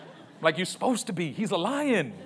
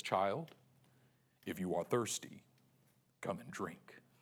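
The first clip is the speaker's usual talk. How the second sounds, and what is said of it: Deep lion character voice. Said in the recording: “I do my Aslan voice”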